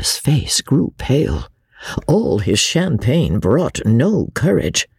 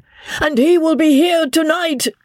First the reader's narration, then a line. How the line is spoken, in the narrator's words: shrieked Isidore to his master